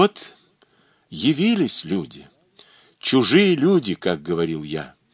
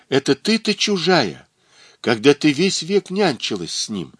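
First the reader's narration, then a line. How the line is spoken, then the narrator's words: Exclaiming. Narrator (Russian): воскликнул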